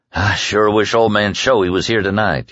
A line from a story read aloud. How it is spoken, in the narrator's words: he said with a sigh